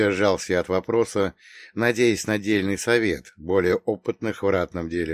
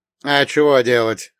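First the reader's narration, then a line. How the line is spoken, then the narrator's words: Snorting. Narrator (Russian): хмыкнул Василий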